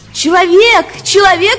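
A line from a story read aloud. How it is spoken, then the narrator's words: Shouted. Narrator (Russian): закричала она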